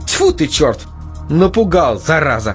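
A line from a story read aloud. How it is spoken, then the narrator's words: Through gritted teeth. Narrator (Russian): процедила Настя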